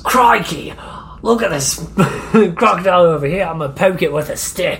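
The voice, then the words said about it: Put-on Australian accent. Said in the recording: “the Australian accent, and I can't get it right ... Crocodile Hunter”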